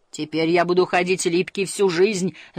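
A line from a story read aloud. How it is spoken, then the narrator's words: Wailed. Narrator (Russian): завопил философ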